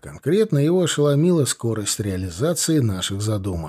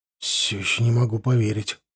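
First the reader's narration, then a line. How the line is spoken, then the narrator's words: Mutter. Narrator (Russian): пробормотал он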